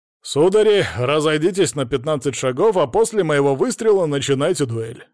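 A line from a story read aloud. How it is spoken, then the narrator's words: Formal voice. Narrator (Russian): официальным голосом проговорил огневик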